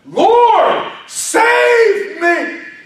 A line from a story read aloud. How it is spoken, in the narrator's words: He's screaming over the wind, and he's screaming over the rain, and he's screaming over the waves